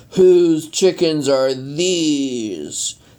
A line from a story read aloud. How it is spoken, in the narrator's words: the nuthawker howled